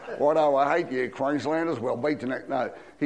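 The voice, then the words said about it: Put-on New South Wales Australian accent. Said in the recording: “How's the accent? ... This is the New South Wales accent.”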